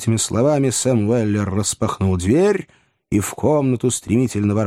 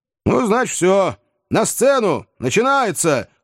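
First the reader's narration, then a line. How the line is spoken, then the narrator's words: Shouting. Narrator (Russian): крикнул Сэм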